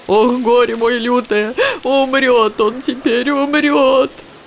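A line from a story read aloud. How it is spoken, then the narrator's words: Sobbing woman. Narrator (Russian): рыдала баба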